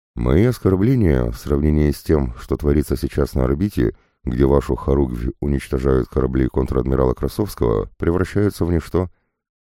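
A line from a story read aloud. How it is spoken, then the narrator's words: Calm reply. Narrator (Russian): ответил на это я, ведя себя спокойно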